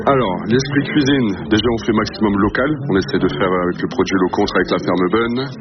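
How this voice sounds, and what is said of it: Slight Flemish regional French accent. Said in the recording (French): “Petit accent des Flandres. ... Un petit peu. Un petit peu, petit accent des Flandres.”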